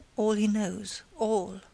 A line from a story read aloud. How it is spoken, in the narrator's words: Spargo again murmured